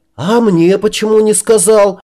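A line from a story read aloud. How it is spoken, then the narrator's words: Yelled. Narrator (Russian): заорал я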